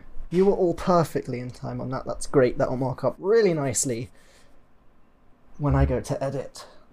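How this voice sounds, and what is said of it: British accent. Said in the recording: “because of British accent, I feel like I should clarify that wasn't sarcasm ... It's just how I talk.”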